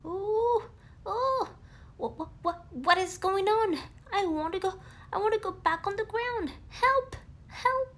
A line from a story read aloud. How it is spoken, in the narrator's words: squealed Piglet, while rising higher and higher in the sky